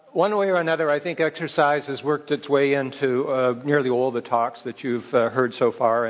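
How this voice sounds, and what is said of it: Speaks with a regional accent. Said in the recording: “I know my accent was going to give me away as a pretender here”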